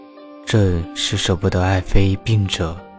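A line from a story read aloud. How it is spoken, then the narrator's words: Soft, comforting. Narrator (Chinese): 柔声安慰几句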